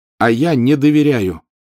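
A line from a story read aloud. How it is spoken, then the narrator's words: Loud declaration. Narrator (Russian): все так же громко заявил он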